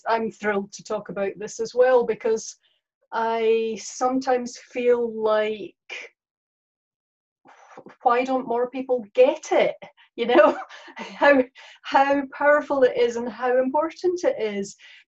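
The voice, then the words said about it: Scottish accent. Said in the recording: “This is not a New Zealand accent, in case anyone's wondering. This is a Scottish accent.”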